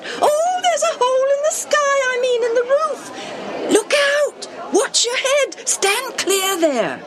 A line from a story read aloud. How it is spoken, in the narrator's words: They squealed, called out